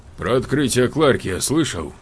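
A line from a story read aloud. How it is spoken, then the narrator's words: Brisk, cheerful blurt. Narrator (Russian): бодро выпалил американец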